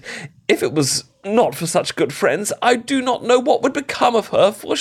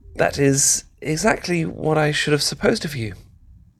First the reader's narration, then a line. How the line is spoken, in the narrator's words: said Elizabeth